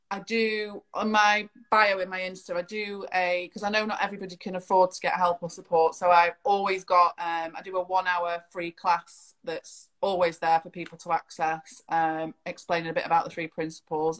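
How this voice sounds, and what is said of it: Manchester accent. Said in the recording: “with your accent, I'm guessing you're from Manchester”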